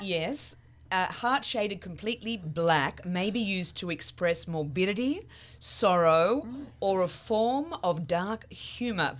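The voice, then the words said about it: Speaks with a noticeable accent. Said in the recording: “I just love to hear that accent”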